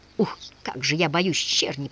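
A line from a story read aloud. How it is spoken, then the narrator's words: Whisper. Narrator (Russian): прошептал Рылеев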